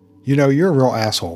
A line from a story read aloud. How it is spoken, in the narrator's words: retorted Sonny in an aggravated voice